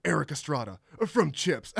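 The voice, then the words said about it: Imitates another person's voice. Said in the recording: “that was a really good Nick Cage impression. ... That's a really good Nick Cage.”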